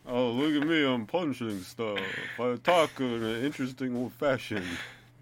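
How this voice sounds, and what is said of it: Imitates another person's voice. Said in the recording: “I've never heard a better Christopher Walken impersonation.”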